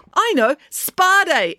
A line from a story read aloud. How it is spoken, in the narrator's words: exclaimed Loretta